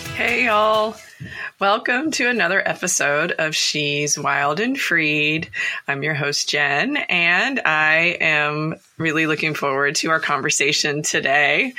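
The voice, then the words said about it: Voice a little off, sick. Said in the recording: “You probably can hear in my voice, if you've listened to the podcast before, that it's a little off. I got sick last week”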